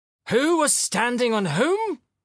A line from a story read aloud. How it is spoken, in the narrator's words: shouted Filip Filipovich